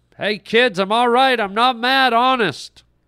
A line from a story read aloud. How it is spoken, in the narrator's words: Brett tried once more to yell to them